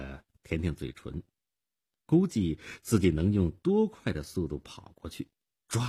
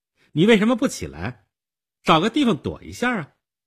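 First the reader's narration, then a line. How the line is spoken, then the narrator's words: Stern young girl asking. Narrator (Chinese): 少女厉声地问道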